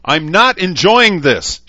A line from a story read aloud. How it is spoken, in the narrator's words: shouted